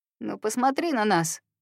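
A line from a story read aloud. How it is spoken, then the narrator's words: Weary. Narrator (Russian): Серж устало роняет слова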